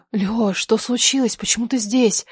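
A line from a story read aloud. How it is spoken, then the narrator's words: Trembling question. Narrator (Russian): спросила я дрожащим голосом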